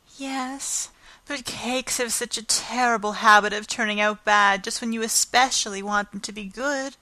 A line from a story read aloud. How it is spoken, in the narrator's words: sighed Anne